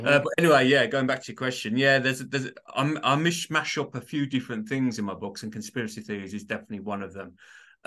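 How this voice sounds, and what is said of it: Birmingham English accent. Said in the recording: “you probably can't tell by my accent. I'm from Birmingham, UK, so you can probably tell it's a bit of a strange accent,”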